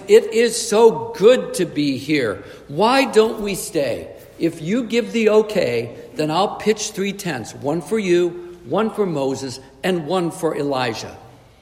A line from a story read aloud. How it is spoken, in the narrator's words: he exclaims